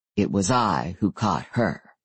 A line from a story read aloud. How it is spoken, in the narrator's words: Adam said softly